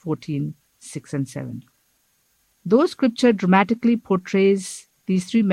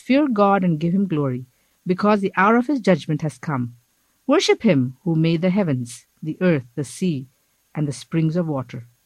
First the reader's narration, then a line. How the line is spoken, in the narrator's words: He said in a loud voice